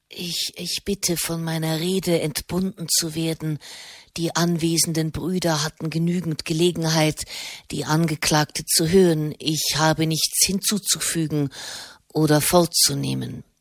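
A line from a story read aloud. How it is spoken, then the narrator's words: Hoarse voice. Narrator (German): sagte mit heiserer Stimme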